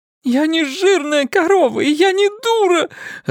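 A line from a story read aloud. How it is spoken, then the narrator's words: Sobbing actress. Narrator (Russian): разрыдалась актриса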